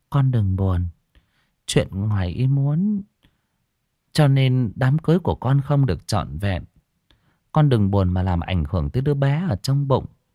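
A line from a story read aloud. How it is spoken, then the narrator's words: Gentle, soft. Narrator (Vietnamese): Bà nhỏ nhẹ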